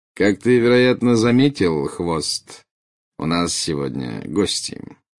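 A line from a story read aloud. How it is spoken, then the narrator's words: Lazy drawl. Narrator (Russian): лениво проговорил Снег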